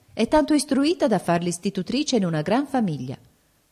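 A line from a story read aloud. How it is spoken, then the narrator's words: Exclamation. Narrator (Italian): esclamò Rosmunda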